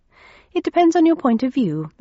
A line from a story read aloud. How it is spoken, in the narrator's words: I said cheerfully